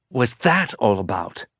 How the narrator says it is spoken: said through gritted teeth

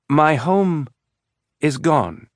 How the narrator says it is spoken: Prax said, speaking slowly

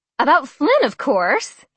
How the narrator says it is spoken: Olivia squealed

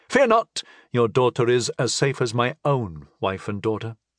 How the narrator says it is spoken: I assured him calmly

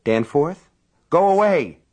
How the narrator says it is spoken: His voice was agitated, but she could not tell if the reason was excitement or fear

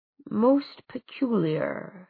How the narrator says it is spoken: he murmured

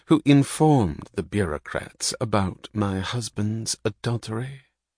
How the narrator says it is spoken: said Lillian softly

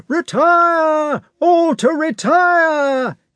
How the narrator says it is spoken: he shouted from a distance

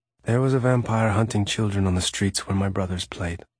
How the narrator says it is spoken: Raphael said, his voice still distant

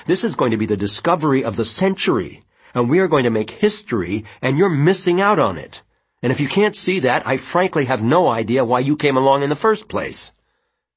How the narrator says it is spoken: Janet said hotly

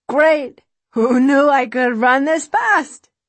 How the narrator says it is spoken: she says with a laugh

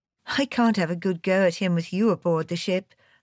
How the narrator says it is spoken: I said, laughing

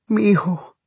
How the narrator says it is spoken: cried Celia from the window

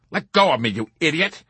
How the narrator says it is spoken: he cried out furiously

